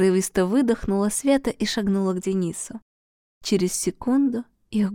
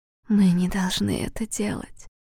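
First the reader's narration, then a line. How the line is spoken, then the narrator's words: Whisper. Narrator (Russian): прошептала Светлана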